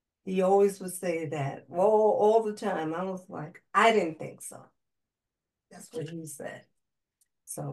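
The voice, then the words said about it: Smooth, calm, soothing voice. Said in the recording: “her voice is like butter, like it's so soothing ... so calm and soothing”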